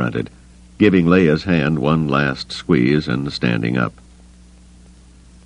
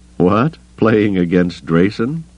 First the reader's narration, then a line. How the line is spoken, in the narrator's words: Han said with a snort